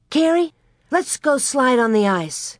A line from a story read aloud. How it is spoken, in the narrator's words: Suddenly she exclaimed